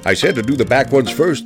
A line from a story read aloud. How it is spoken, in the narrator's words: the crocodile called out